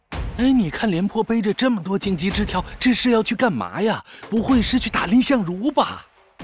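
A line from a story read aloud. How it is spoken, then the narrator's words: Whispering crowd murmurs. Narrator (Chinese): 街上的行人纷纷小声议论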